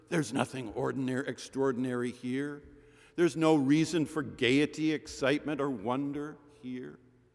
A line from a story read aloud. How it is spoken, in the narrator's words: the voice that whispers